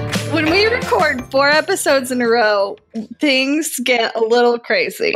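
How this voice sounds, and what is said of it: Usual voice. Nothing is said of it.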